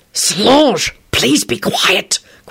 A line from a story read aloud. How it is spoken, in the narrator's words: Quentin whispered furiously